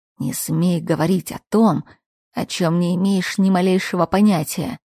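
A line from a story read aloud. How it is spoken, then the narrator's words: Furious hiss. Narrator (Russian): Сверля меня разъяренным взглядом, мужчина прошипел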